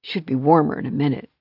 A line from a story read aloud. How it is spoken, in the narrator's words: he muttered